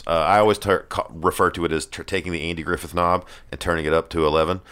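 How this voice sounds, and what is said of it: Southern American accent, slightly exaggerated. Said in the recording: “my southernness ... I am southern, and I sound it normally. But when I'm on the radio or something like this, um, on stage as a comedian, I do tend to turn it up a little bit.”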